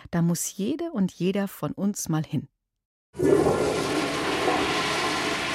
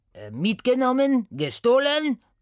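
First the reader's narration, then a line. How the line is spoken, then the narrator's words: Calling out. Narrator (German): rief Sati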